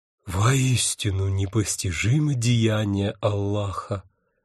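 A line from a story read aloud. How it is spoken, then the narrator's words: Sighing. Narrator (Russian): вздохнул Мухаммед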